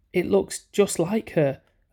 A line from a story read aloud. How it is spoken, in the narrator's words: I said, but the tears had found their way into my throat, and I choked on the words